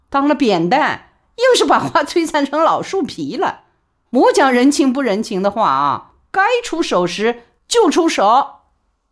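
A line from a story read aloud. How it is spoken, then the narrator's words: Laughing. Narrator (Chinese): 李宝莉也笑说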